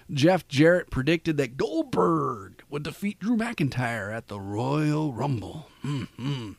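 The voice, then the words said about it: Poor Macho Man impression. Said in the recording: “doing a Macho Man impression. It sucked anyway.”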